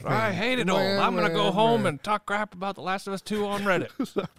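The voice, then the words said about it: Put-on Southern US character voice. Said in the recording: “this accent that I keep using, whatever this character is... He sounds Southern... I think it's spot on... That's exactly what they sound like”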